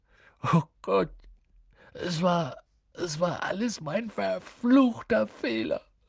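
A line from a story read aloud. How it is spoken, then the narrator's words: Sobbing, muffled by hands. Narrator (German): schluchzte er, das Gesicht in den Händen vergraben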